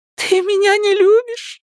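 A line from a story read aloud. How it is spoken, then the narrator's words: Sobbing. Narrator (Russian): всхлипывая, продолжала она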